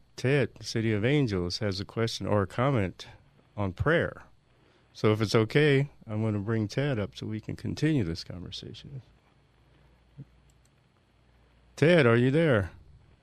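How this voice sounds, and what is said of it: Polished professional radio voice. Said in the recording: “professional radio voice”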